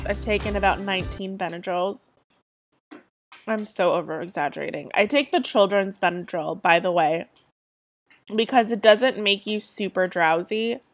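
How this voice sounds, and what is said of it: Sick, head-cold voice. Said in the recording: “if you can't tell by my voice, I'm sick. ... just a head cold.”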